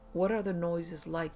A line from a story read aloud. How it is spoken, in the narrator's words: they asked